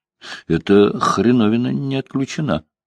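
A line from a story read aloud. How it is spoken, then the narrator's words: Plain. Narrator (Russian): сказал Бобби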